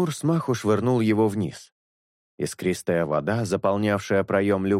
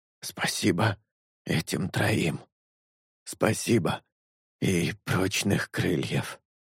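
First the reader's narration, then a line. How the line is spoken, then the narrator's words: Hoarse rasp. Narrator (Russian): прохрипел летун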